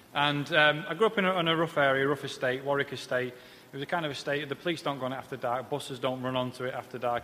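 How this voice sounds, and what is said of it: Northern English accent. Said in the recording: “I'm obviously not a southerner, as you can tell by the Peter Kay-ish twang to my voice. I'm from the north.”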